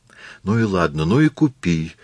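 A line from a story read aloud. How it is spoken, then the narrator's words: Hurried, pleading. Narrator (Russian): умоляющим голосом поспешно произнес Масару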